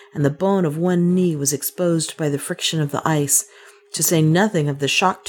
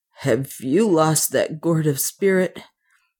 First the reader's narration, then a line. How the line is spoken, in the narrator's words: murmured Leonard in a shaking voice